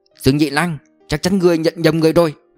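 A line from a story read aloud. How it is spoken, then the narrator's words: Shouted. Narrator (Vietnamese): Mã Tuấn quát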